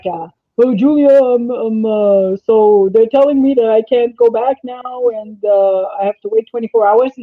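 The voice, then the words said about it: Imitates a strong accent. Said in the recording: “He's got this strong accent.”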